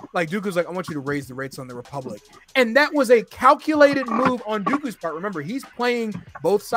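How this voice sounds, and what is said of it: Usual voice. Nothing is said of it.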